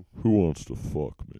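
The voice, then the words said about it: Buffalo Bill character voice. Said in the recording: “You sounded a lot like Buffalo Bill when you said that. ... I bet you do a really good Buffalo Bill impression.”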